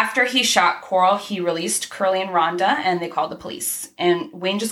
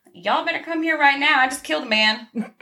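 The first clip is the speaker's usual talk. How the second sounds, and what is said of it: Deliberately bad Texas accent. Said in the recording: “Putting on my really shitty Texas accent.”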